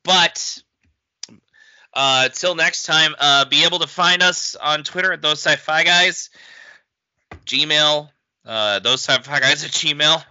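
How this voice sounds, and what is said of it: Hoarse, strained voice. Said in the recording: “Oh man, I'm losing my voice. ... Yes, you are.”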